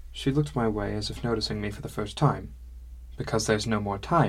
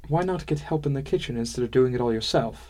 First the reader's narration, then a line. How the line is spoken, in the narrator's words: She sighed again